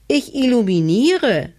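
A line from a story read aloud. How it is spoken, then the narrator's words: Small cat calling down. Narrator (German): rief die kleine Katze herunter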